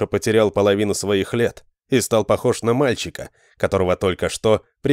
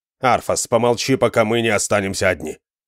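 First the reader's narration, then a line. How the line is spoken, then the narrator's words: Sharp interruption. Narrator (Russian): Резко оборвал его Реза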